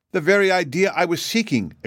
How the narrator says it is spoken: exclaimed Shaggy joyfully

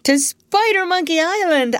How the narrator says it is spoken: I shouted

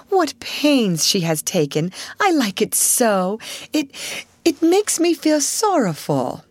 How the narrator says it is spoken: cried Sarah, with a warm feeling in her heart

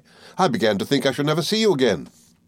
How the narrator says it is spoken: cried

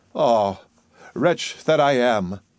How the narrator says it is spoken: sighed she

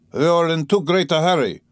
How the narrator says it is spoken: he shouted at him, almost angrily

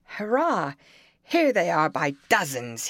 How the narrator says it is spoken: cried out

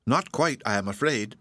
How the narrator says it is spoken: said Phoebe, laughing

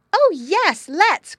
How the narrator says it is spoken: cried the girls

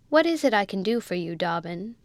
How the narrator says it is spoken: he said in a sarcastic tone

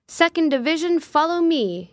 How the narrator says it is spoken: cried

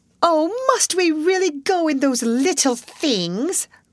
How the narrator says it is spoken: cried Miss Pennington as she heard this

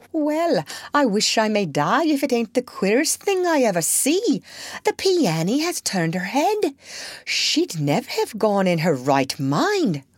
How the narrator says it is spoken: cried Hannah

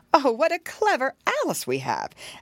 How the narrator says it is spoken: he also exclaimed

